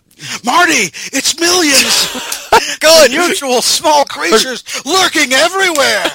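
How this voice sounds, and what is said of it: Good Christopher Lloyd impression. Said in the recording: “I pictured you as Christopher Lloyd in something ... That's perfect. That's really good. That was a really good Christopher Lloyd impression.”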